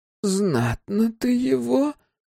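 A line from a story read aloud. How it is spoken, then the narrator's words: Approving, through clenched teeth. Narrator (Russian): одобрительно процедила дочь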